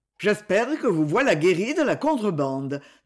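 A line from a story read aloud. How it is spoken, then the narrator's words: Plain. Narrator (French): dit-il à Marcel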